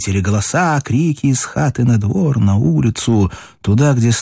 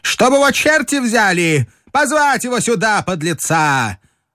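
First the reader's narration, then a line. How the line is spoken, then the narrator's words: Harsh, stammering, effeminate commanding shout. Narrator (Russian): Резкий голос с запинкой и с бабьим оттенком крикнул повелительно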